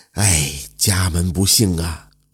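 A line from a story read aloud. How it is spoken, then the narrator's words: Sad sighing. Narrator (Chinese): 杨掌柜眼圈一红，叹了口气说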